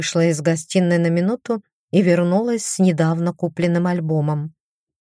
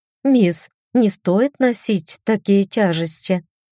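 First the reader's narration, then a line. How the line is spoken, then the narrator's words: Cooing. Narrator (Russian): ворковала я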